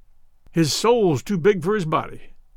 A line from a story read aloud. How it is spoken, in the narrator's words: growled the American